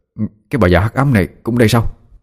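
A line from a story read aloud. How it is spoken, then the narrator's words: Astonished gulping mutter. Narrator (Vietnamese): trợn mắt kinh ngạc khi thấy cô, nuốt nước bọt cái ực, miệng lẩm bẩm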